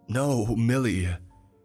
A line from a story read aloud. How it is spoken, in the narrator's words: Tommy cries